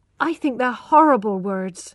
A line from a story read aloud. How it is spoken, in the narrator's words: cried Tess